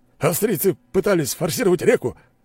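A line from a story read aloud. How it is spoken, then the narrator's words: Joyful report. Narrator (Russian): радостно доложил начальник гвардии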